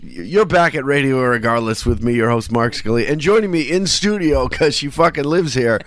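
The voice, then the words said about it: Tired, drunk-sounding voice. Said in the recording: “You sound drunk. ... I'm so tired. I'm not drunk.”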